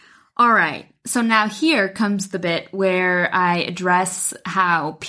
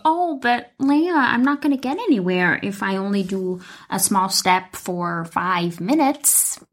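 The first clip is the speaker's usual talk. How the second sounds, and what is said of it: Weird put-on voice and accent. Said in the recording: “That was a really weird voice and a really weird accent”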